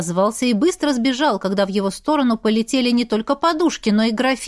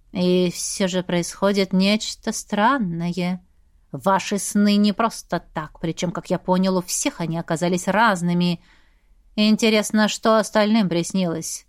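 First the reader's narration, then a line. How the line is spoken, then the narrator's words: Thoughtful drawl. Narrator (Russian): Задумчиво протянул Сантовар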